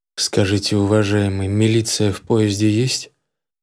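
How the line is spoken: Even, level voice. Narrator (Russian): спросил я ровным голосом

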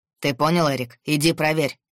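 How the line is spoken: Stern order. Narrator (Russian): строго сказал он охраннику

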